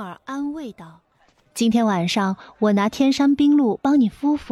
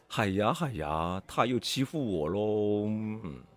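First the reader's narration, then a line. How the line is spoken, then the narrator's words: Pitiful muttering. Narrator (Chinese): 小宝一脸可怜状，嘀咕道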